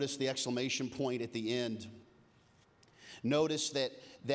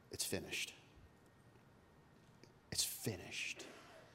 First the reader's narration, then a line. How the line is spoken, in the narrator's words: after having had the sour wine, Jesus cries out